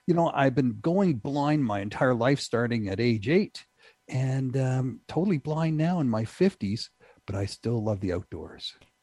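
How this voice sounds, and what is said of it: Subtle Canadian accent. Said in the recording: “your very subtle accent, you are Canadian”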